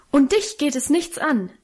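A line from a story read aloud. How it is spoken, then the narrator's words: Beside herself, crying out. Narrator (German): rief sie außer sich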